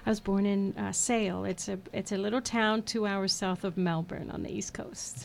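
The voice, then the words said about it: Australian accent. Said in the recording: “with an accent like that? ... I'm originally from Australia.”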